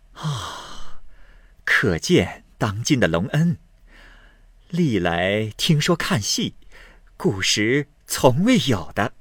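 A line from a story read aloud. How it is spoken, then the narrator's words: Laughing. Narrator (Chinese): 凤姐笑道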